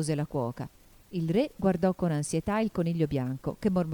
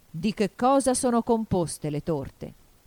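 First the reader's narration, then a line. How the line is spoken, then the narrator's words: King speaking. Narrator (Italian): disse il re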